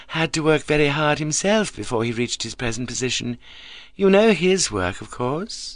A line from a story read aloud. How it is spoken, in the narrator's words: she said smoothly